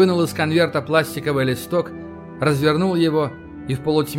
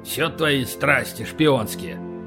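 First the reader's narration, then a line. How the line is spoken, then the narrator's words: Grumbling. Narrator (Russian): проворчал Полубой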